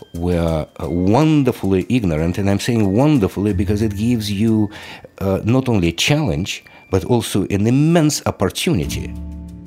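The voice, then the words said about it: Russian accent. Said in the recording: “I don't think that's a Boston accent ... Not unless there's a city in the former Soviet Union that's called Boston. Now, he's from Russia”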